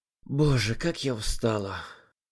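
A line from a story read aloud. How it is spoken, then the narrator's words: Weary exhaling young woman. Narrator (Russian): выдохнула девушка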